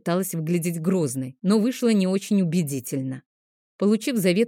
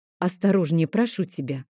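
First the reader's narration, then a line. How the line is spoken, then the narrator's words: Sighing. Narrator (Russian): вздохнула я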